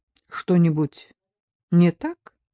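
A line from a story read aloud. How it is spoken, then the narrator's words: Uncertain question. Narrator (Russian): неуверенно спросил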